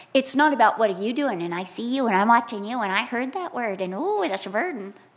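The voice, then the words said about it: Imitates a scolding woman's voice. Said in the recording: “I'm imitating this woman that I saw in Leicester Square that was telling us all we're going to hell ... It has that same ring, that same voice”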